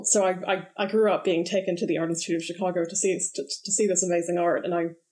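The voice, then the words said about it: American accent. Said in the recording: “as you can probably guess from my accent, I'm not originally from the UK. I grew up in Chicago”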